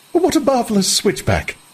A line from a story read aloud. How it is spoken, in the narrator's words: Lenina laughed delightedly